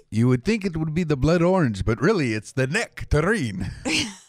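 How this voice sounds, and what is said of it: Weak attempt at Dracula accent. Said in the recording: “your accent sounded less Bela Lugosi and more Cory Booker”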